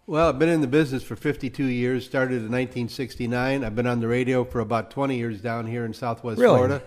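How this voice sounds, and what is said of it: Great radio voice. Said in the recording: “you got a great radio voice.”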